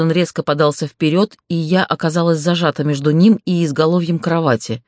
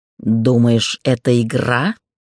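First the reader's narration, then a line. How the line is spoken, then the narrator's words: Growling. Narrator (Russian): прорычал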